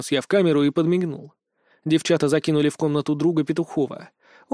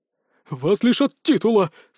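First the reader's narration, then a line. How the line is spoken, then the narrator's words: Whining. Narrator (Russian): скулил Виталик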